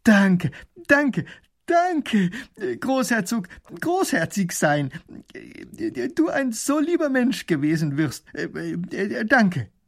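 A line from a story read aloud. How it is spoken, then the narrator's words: Calling out. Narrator (German): Er ruft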